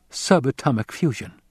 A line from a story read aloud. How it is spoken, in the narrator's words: Jessica said